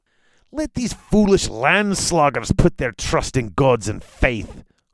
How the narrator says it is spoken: Humbleton muttered, more to himself than to Gromthi

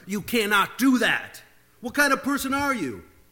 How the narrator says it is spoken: He yelled

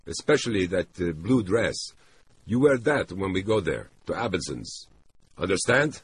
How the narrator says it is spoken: He spoke the last word sharply, as if it was an order

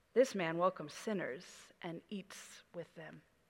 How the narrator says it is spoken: the Pharisees and the teachers of the law muttered

